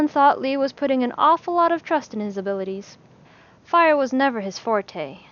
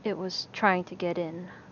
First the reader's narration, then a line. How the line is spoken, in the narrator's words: Alan muttered